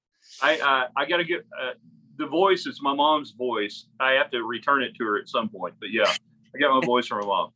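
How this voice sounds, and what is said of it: Deep country-tinged radio voice like Dan Patrick. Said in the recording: “sound kind of like a country or a southwestern version of Dan Patrick ... You just have that voice, and it immediately reminded me of Dan Patrick calling a game ... It's definitely a prototypical radio voice ... not quite deep in the chest yet”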